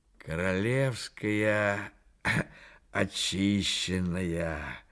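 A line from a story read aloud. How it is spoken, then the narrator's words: Exhaled by a drunkard. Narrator (Russian): выдохнул пьянчуга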